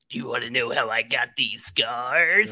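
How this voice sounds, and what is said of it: Imitates the Joker character's voice. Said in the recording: “great Joker impression ... really Honestly, good.”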